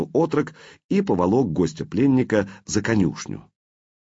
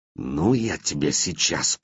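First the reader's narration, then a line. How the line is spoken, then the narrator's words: Youth hissing. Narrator (Russian): прошипел отрок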